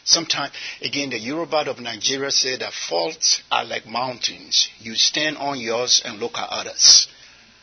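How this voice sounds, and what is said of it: Non-American accent. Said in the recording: “since I came to America, I've lost everything except my accent.”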